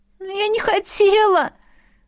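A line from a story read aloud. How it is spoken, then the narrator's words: Helpless sob. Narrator (Russian): беспомощно всхлипнула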